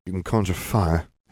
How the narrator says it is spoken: Harry sighed

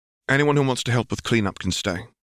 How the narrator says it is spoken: said Hermione

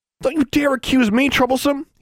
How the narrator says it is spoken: said hotly

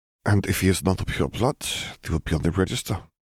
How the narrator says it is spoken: Gellert murmured

